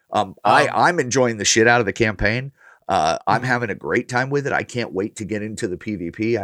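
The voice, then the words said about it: Hoarse, sore-throated voice. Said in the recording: “I have a little bit of a sore throat”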